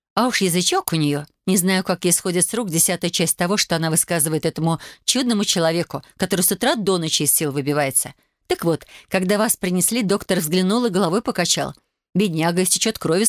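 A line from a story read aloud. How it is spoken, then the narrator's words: Plain. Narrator (Russian): сказал он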